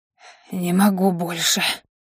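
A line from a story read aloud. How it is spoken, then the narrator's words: Exhausted young man's breath. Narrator (Russian): выдохнул парень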